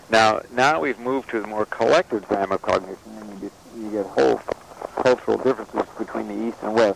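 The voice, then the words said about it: Voice fading, going hoarse. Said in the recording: “Losing your voice here.”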